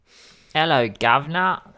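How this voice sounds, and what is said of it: Put-on British accent. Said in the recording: “I have to do my British accent.”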